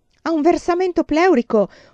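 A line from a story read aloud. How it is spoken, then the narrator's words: Shouting while searching. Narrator (Italian): urlava rientrando la sera cercando mia madre in tutte le stanze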